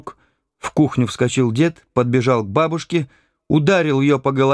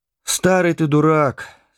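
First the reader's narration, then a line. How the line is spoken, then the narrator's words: Calm grandmother. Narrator (Russian): спокойно сказала бабушка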